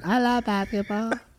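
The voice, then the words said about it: Baby-like infant voice. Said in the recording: “talking like an infant.”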